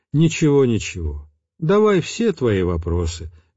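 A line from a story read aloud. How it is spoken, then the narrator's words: Soft, smiling voice. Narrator (Russian): мягко улыбнулся отец Тихон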